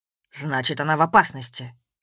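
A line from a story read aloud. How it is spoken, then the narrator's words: Sharp. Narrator (Russian): резко сказал Воронцов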